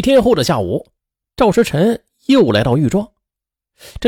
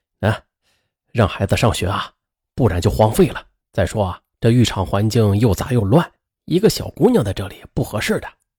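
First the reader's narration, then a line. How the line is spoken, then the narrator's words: Long sigh. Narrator (Chinese): 赵时辰长叹了一口气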